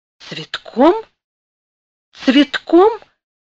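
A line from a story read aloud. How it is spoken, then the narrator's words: Princess's timid question. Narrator (Russian): робко переспросила принцесса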